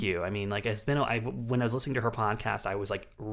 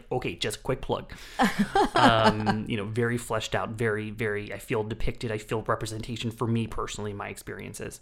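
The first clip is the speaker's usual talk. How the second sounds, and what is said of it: Lena Dunham impression. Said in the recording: “your Lena Dunham impression ... really on point with it”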